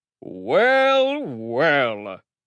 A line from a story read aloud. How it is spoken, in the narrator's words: rumbled the giant